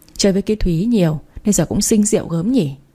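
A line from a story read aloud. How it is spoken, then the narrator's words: Sighing. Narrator (Vietnamese): thở dài nói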